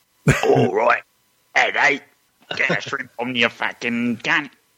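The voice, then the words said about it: Exaggerated put-on Australian accent. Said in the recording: “Can you amp it up a bit? Can you be a bit more Aussie, please? ... Now you just sound like Jabs after half a pint of whiskey”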